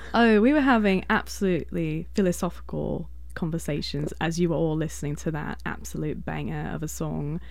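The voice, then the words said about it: British accent. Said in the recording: “You have a British accent. ... to sound like a British imperialistic clown”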